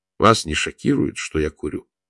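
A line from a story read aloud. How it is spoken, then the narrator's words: Calm question. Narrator (Russian): Фаина Георгиевна спокойно спросила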